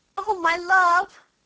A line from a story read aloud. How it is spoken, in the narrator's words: cried Mrs